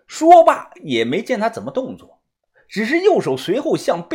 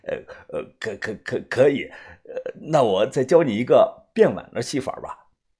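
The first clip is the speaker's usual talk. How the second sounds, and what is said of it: Quiet stammering mumble. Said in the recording (Chinese): “小声的嘟囔”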